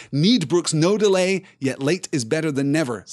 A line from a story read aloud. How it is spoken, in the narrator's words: said Éomer